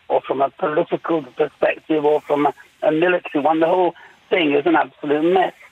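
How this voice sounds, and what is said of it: Strained, failing voice. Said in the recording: “I'm sorry, my voice is going on me”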